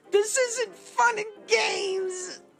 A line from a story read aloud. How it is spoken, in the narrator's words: she yells